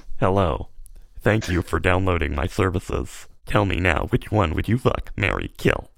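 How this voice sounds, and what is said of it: Robotic computer text-to-speech voice. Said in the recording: “doing the Microsoft Sam voice”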